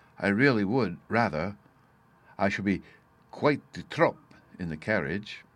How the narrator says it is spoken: he said in a low voice

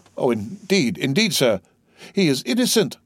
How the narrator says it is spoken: sobbed forth Mercedes

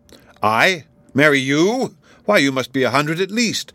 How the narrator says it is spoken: cried he

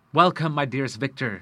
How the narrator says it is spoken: said he

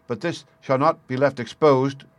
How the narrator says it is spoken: cried Mortimer

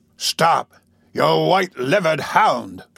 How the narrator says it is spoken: cried the robber, shouting after Toby Crackit

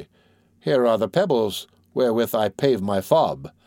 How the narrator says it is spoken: Jehan replied coldly

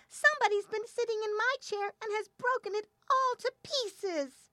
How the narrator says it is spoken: the little bear piped

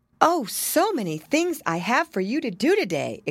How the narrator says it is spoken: exclaimed Mrs

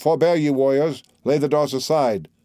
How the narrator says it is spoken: thus the monarch great Atrides cried

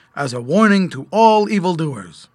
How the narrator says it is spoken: the toy man spoke sternly

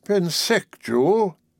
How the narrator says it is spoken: he repeated wearily

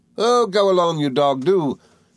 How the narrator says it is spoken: cried the little creature

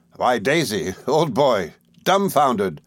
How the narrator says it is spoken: laughed Steerforth

